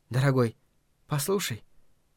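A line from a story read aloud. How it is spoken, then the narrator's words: Whispering. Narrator (Russian): она шепнула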